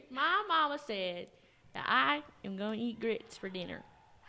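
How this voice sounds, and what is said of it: Fake southern accent. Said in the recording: “They sometimes get a fake southern accent”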